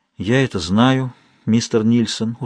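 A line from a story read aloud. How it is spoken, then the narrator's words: Tired woman speaking. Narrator (Russian): устало произнесла она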